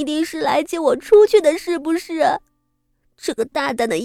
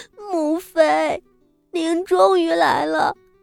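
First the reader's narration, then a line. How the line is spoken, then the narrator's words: Tearful, surprised joy. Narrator (Chinese): 又惊又喜的哭道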